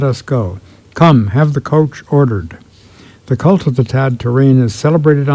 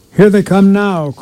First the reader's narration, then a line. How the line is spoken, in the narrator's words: cried the people on the balconies